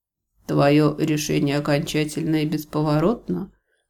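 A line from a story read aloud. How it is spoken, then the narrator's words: Muffled question. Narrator (Russian): Глухо поинтересовался он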